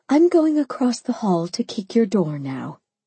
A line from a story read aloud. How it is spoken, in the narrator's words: I sighed